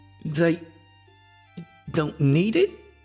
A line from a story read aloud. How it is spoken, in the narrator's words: I stammered